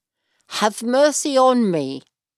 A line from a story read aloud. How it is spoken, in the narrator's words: he called out to this great healer